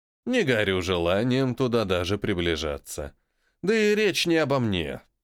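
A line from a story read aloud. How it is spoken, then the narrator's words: Insinuating, ingratiating. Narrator (Russian): Продолжил вкрадчиво говорить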